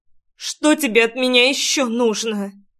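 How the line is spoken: Anguished sobbing girl. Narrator (Russian): Надрывным голосом спросила девчонка, всхлипнув в придачу

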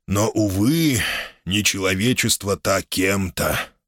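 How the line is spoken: Sighed regretfully. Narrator (Russian): вздохнул Гамалей, с сожалением

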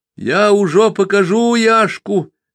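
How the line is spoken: Herb-woman shouting. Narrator (Russian): закричала отварница Тина

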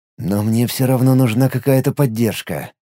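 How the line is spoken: Muttered to himself. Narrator (Russian): мысленно пробормотал он

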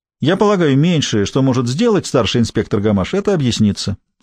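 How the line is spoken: Ordinary voice. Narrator (Russian): сказал обычным голосом

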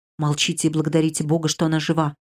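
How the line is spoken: Whispered. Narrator (Russian): шепотом ответил я

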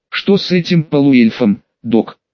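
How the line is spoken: Hoarse question. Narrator (Russian): хрипло спросил один из них

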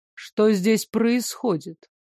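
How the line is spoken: Icy inquiry. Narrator (Russian): ледяным тоном поинтересовался тот

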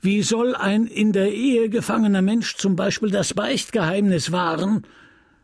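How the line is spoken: Clergyman calling out. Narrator (German): rief der Geistliche

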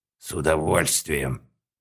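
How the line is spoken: Menacing growl. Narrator (Russian): угрожающе прорычал мужчина

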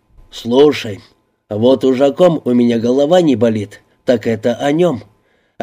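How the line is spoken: Angry bark. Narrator (Russian): Окончательно разозлившись, рявкнул Палаццо

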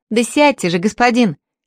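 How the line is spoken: Shout. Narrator (Russian): крикнула

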